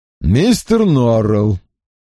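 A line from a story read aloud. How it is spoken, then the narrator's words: Cold address. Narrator (Russian): холодно обратился Лассельс к хозяину дома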